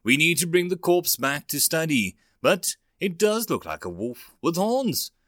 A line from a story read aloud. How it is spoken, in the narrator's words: the techie replied excitedly